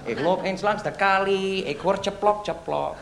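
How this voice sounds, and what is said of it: Put-on foreign accent. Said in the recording (Dutch): “Ik zal met mijn accent praten, ja? Ik praat met mijn accent”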